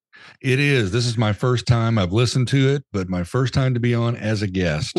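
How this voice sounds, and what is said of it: Radio voice. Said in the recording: “radio voice guy ... you've got a radio voice”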